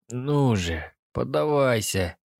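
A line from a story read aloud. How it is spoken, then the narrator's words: Hoarse. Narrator (Russian): прохрипел я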